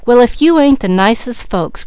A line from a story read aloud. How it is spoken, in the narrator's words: cried Mickey